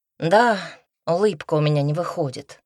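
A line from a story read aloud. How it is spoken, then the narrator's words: Sighing. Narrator (Russian): вздохнул художник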